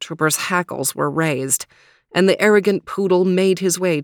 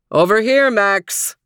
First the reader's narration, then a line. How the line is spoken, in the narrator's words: bellowed Overton